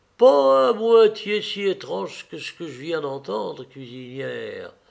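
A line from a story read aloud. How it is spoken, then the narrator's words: Sepulchral voice. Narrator (French): ajouta Thomas d'une voix sépulcrale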